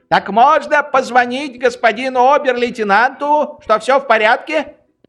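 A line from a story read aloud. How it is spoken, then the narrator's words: Shouting after someone. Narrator (Russian): Швейк закричал ему вдогонку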